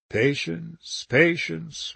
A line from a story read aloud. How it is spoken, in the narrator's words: murmured Weldon